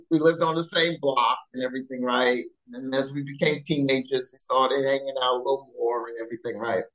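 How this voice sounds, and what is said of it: New York accent. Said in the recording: “I'm from New York. ... I can hear that accent. I can hear that accent right there.”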